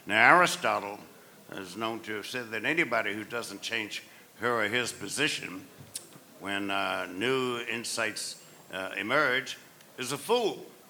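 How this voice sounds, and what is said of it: Southern US accent. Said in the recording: “some people may infer from my accent that I'm not from South Brooklyn, but I'm from the southern part of the United States”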